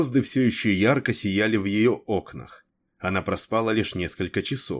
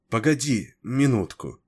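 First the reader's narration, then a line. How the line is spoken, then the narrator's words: Uncertain reply. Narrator (Russian): неуверенно отозвалась она, узнав голос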